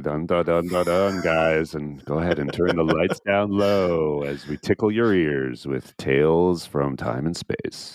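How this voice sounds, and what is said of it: Smooth deep mid-Atlantic DJ voice. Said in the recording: “you're sounding just like what we used to call in the UK a mid-Atlantic DJ ... on Radio 1 late at night ... with some smooth tunes ... deep voice for deep voice”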